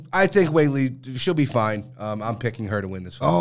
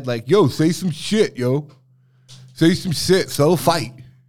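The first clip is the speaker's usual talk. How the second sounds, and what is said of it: Imitates another person's voice. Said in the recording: “good Pat Barry impression”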